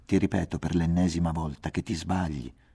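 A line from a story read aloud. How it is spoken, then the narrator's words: Quiet voice. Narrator (Italian): diceva Nicole sottovoce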